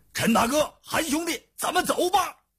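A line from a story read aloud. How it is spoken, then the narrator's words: Calling out. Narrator (Chinese): 叫道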